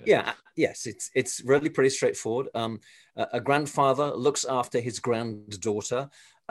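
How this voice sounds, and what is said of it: English accent. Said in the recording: “I come from England originally, as you can probably tell from my accent.”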